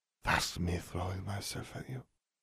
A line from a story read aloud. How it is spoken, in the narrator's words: Fleur whispered